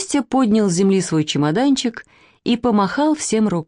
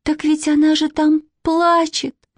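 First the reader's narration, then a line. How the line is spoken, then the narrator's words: Sudden plaintive voice. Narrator (Russian): вдруг жалобно сказала Катя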